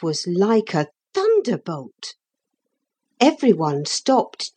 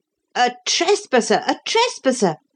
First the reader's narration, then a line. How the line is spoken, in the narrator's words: cried the crowd